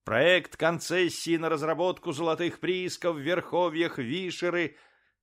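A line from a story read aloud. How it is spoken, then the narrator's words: Loudspeaker blaring. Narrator (Russian): кричал громкоговоритель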